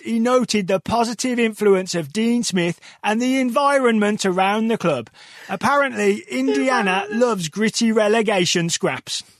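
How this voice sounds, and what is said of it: Excited Birmingham-area English accent. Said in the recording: “That just sounded like you were very excitedly reading a news report ... one word in there, though, that you made into four syllables when I think it's three ... that's how the Birmingham accent works ... Add those syllables ... you were reading it with the accent”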